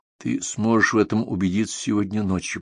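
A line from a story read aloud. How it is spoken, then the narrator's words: Whispered. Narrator (Russian): прошептал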